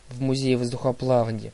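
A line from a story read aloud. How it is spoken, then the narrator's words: Irritated correction. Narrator (Russian): раздраженно поправил его Лука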